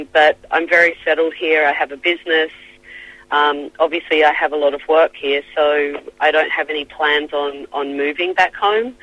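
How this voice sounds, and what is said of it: Australian accent. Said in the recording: “I still sound like an Aussie.”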